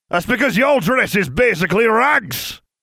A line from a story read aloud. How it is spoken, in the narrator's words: the other man shouted